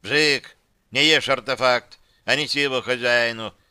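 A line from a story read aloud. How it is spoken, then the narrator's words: Barked. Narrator (Russian): рявкнул темный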